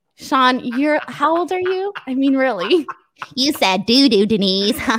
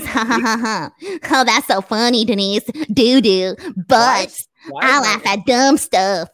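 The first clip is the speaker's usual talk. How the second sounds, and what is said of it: Mocking imitation of another person's voice. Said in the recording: “Why is my grandmother impersonating me?”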